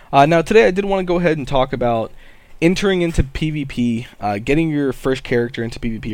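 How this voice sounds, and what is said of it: Slightly scratchy, hoarse voice. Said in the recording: “I am feeling a little bit under the weather today... my voice being a little bit scratchy... get a little bit hoarse”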